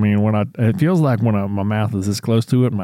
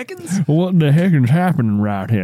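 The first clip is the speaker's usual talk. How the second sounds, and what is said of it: Exaggerated Southern American accent. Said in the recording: “my accent gets a little bit more southern”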